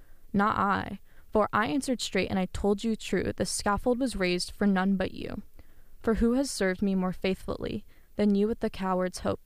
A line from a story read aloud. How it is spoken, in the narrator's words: said he